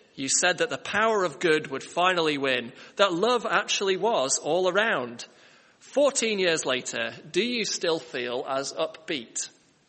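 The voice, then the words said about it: Shambolic Hugh Grant impression. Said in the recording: “my shambolic Hugh Grant impersonation”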